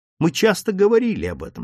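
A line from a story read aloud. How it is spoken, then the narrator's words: Plain. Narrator (Russian): сказал Лэри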